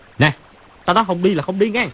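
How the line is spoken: Loud shout. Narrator (Vietnamese): Chu Bá Thông quát to

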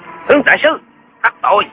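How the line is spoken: Barked shout. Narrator (Vietnamese): Một tên thám tử quát lên

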